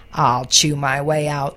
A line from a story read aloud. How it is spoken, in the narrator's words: growled the fox